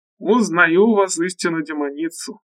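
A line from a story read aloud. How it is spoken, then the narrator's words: Laughing loudly. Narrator (Russian): захохотал профессор Раш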